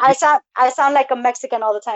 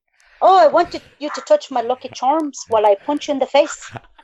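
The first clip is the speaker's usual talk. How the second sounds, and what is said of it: Put-on Irish accent, not bad. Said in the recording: “I can't do an Irish accent ... actually wasn't bad”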